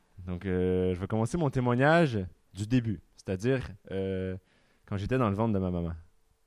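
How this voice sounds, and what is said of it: Québécois French accent. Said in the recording (French): “je suis québécois ... Ça va peut-être s'entendre à mon accent, un petit peu.”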